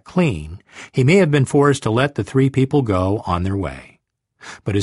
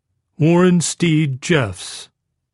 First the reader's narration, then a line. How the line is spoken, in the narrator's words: came the answer, with a sigh of resignation